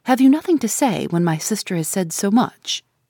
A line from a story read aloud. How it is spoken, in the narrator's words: I interposed sharply